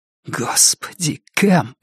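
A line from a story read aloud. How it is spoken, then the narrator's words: Whispered. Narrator (Russian): прошептал Вик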